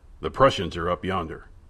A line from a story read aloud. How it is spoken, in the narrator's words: Monsieur Sauvage murmured